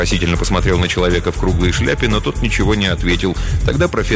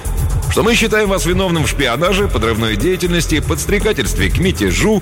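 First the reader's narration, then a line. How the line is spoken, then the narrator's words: Cheerful, officer. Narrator (Russian): весело начал сотрудник специального отдела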